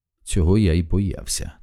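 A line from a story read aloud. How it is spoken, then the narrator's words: Quiet speech. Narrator (Ukrainian): тихо мовив він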